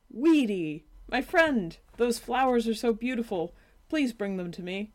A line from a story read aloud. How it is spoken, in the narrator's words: Cypress exclaimed